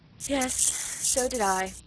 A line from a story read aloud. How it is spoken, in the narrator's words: she said with a sigh